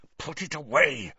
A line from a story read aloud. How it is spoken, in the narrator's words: snarled Snape